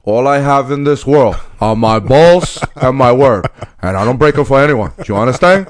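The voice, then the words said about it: Imitates a movie gangster's voice. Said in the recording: “my Tony Montana impersonation ... That's a good job, buddy.”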